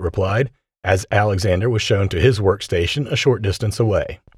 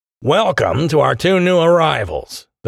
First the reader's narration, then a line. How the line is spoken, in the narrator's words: the man said in a transatlantic accent